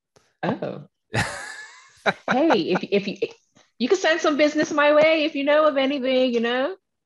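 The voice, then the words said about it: Island accent. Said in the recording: “somebody that's from the islands ... You got a great accent too”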